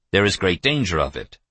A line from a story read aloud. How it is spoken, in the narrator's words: Evans told him flatly